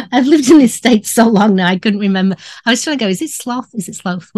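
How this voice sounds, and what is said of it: British accent. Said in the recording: “you have a British accent, so anything you say is going to make it sound fancy”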